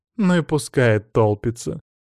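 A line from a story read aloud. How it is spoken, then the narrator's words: Contemptuous snort, young woman. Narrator (Russian): С презрительным тоном фыркнула невысокая черноволосая девушка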